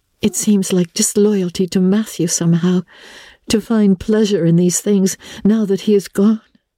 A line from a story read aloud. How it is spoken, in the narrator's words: she said wistfully